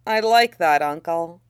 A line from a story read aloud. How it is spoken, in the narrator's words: he says wistfully